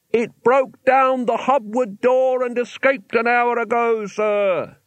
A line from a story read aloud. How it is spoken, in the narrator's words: he yelled